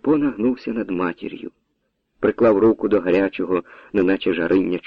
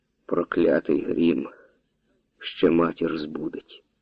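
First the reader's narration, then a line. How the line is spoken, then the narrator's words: Whisper. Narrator (Ukrainian): шепнув Карпо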